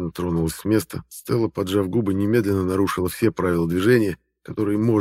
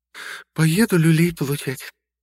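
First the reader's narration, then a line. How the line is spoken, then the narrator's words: Sighing. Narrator (Russian): вздохнула моя напарница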